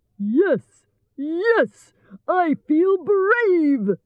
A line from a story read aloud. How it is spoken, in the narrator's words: shouted